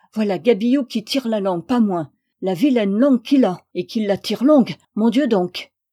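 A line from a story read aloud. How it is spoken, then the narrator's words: Little girl shouting. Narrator (French): criait la petite Joanne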